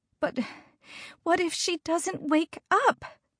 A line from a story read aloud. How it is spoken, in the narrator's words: Hannah cried